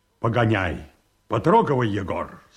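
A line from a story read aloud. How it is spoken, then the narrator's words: Curt, clipped. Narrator (Russian): сказал Павел Антонович отрывисто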